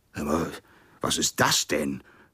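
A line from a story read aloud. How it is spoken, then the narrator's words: Horrified roar. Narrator (German): brüllte er entsetzt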